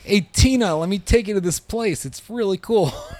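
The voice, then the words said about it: Imitates another person's voice. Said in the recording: “It's a really good impression.”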